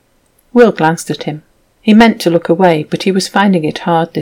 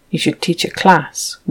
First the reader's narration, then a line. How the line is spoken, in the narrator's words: Will muttered